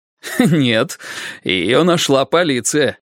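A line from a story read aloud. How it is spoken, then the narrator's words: Laughing. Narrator (Russian): рассмеялся Мейсон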